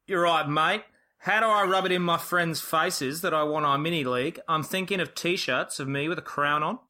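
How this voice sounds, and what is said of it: Put-on Australian accent. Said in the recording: “your famous Australian accent”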